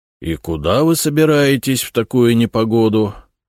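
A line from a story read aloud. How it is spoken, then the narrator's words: Grumbling. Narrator (Russian): ворчал он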